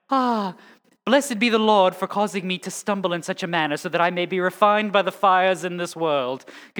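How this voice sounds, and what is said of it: Mock British accent, lofty Bible talk. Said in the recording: “whenever you speak like, you know, highfalutin Bible talk, you got to have a British accent”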